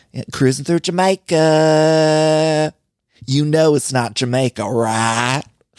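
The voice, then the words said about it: Imitated Kentucky accent of Brittany. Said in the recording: “our Brittany from Kentucky ... I too find myself attracted to that accent”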